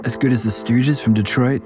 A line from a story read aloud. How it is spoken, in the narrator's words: Doug asked